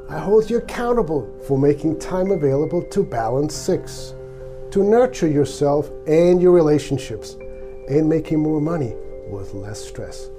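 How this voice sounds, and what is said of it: Swiss-accented English. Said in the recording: “In case you're wondering about my accent, I came from Switzerland more than 30 years ago.”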